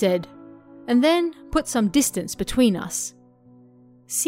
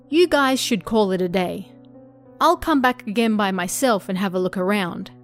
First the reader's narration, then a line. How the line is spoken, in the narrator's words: said